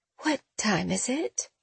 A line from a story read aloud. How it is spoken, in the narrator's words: Her voice was so weak